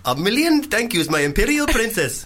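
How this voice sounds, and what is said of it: Put-on Indian accent. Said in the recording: “Indian. ... the accent”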